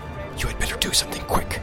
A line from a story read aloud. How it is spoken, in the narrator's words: whispered Strider in his ear